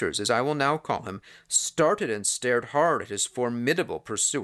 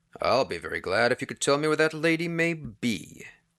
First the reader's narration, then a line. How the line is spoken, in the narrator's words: Peters answered coolly